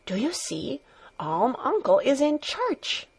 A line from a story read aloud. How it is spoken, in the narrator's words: every one was whispering